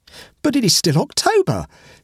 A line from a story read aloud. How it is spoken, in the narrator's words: exclaimed the adventurer with an eager, angry whine